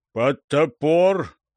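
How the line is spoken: Booming voice. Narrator (Russian): прогудел один подвоевода

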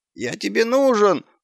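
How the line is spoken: Whining dog. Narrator (Russian): заскулил пес

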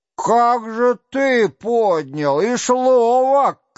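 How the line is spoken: Hoarse shouting. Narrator (Russian): кричал один хриплым голосом

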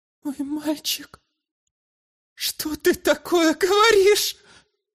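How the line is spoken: Woman sobbing. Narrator (Russian): всхлипнула женщина

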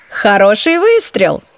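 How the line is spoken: Mischievous giggle. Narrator (Russian): вновь озорно хихикнула

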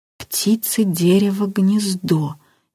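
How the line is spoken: Uncertain, aloud. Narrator (Russian): неуверенно произнес вслух Илюшин

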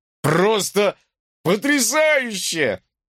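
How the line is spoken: Shouting over noise. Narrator (Russian): прокричал, стараясь перекрыть шум

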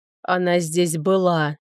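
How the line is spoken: Muffled hollow voice. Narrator (Russian): глухо сказал Граферт

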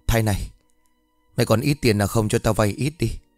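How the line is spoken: Hesitant question. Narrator (Vietnamese): Hắn ngập ngừng hỏi

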